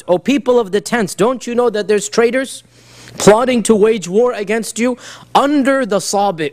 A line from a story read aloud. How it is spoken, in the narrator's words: a loud voice scream out